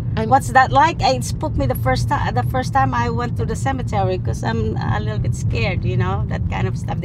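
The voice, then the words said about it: Speaks with a noticeable accent. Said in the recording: “despite the accent.”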